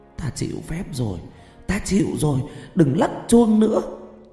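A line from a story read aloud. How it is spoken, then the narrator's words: Eerie moaning. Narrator (Vietnamese): Từ trong khối xương có tiếng rên rỉ rờn rợn phát ra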